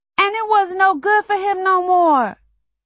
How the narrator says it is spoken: he sobs

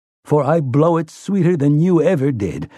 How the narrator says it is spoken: he tells Roland, laughing

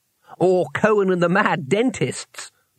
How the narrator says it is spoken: laughed Twoflower

